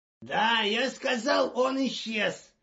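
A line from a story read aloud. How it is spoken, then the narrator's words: Bark. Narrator (Russian): рявкнул заместитель секретаря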